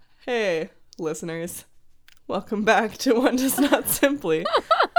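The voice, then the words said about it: Sick, weird-sounding voice. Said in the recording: “I'm like sick. So this is, if I sound weird, that's why.”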